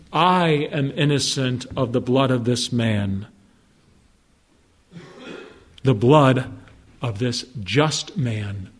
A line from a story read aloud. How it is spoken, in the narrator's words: he said